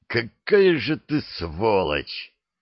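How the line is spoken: Hoarse, unfamiliar voice. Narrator (Russian): хриплю, как по-чужому звучит мой голос

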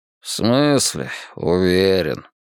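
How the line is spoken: Nasal muttering. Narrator (Russian): пробурчал он и заметил, что гнусавит

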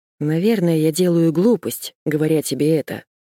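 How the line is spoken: Heavy sigh. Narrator (Russian): тяжко вздохнул

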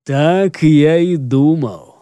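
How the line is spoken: Gloomy sorcerer's voice. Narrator (Russian): мрачно заключил черный колдун

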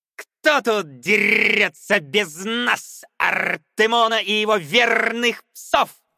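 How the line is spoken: Playful shout, boy. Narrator (Russian): задорно крикнул мальчик

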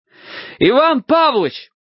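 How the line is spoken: Yelling. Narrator (Russian): заорал я

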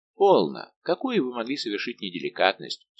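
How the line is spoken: Calm question. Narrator (Russian): спокойно спросил Арамис

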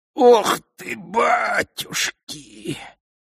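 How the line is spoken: Hoarse wheeze. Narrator (Russian): просипел циклоп

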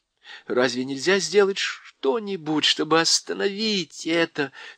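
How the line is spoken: Trembling voice. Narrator (Russian): спросила Джил дрожащим голосом

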